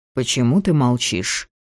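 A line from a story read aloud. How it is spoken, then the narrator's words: Quiet sudden question. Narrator (Russian): вдруг негромко спросил он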